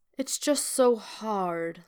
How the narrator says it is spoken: Loki sighs, a thick, despondent note in his voice

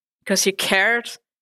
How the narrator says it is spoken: Claire snapped, too cold and tired to argue with him

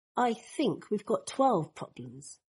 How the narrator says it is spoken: Draco mutters

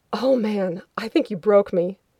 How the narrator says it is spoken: Mitchell said, gasping in the aftershock

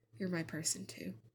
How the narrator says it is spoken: She mumbles something, Shauna can't tell exactly what, but it sounds like she says

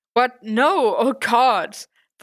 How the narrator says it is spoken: Foggy exclaimed, horrified and immediately growing flustered

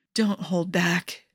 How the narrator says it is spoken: Mickey whispered

